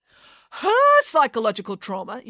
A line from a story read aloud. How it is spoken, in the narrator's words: yelled the mayor